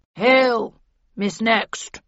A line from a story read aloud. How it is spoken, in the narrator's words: rumbled Falstaff, waddling up and staring at me unsteadily from within a cloud of alcohol fumes